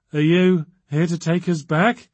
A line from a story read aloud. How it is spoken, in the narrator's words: she said in a quivering voice